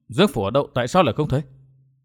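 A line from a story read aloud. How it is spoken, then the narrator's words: Muttering. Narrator (Vietnamese): Chàng lẩm bẩm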